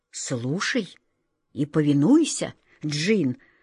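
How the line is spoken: Trembling voice. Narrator (Russian): дрогнувшим голосом сказал волшебник Алеша

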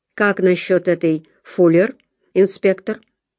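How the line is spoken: Plain. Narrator (Russian): спросил Харпер

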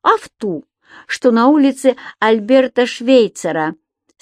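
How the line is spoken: Speech then laughter. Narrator (Russian): сказал Субастик и рассмеялся

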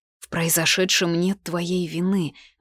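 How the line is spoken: Hoarse. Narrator (Russian): вымолвила сипло

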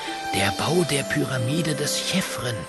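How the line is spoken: Whisper. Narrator (German): flüstert Schepi

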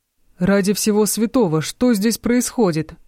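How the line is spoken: Roaring. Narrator (Russian): взревел Тристан

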